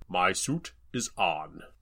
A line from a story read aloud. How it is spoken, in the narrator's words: Doug pointed out, keeping his voice low